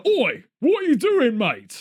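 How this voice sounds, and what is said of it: Vinnie Jones-style tough London voice. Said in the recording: “a Vinnie Jones politician”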